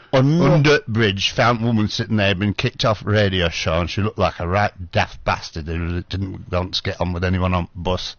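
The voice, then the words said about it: Thick put-on Manchester accent. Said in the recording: “Manchester accent is sort of like central Britain, Midlands thing, but it's quite thick, and there's a lot of words they don't say the letters of a word.”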